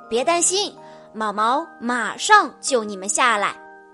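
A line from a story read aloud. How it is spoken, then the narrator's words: Loud. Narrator (Chinese): 莱德大声地说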